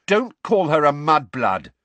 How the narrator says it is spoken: said Ron and Ginny together, very angrily

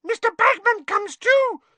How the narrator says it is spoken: squeaked Winky

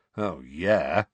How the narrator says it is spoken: said Sirius sarcastically

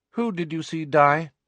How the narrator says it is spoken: asked, her tone indifferent

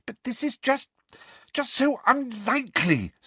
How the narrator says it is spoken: said Hermione desperately

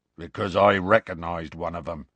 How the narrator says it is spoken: Hagrid growled

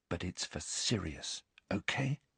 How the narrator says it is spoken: he told her, whispering

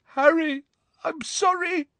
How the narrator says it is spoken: cried Neville, his face anguished

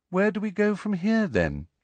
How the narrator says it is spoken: she asked Harry in a politely interested voice, as though this was all a rather interesting day trip

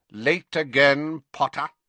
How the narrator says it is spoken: said Snape coldly

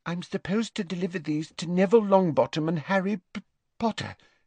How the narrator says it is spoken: she faltered

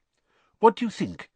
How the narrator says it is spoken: he asked anxiously

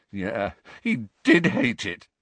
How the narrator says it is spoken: said Harry, his voice cracking

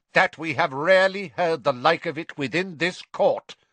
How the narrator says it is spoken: said Crouch, speaking more loudly, drowning out his son's voice

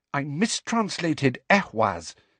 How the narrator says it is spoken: said Hermione furiously

